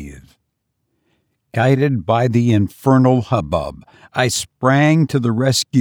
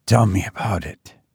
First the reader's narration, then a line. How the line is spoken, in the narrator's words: I managed to say faintly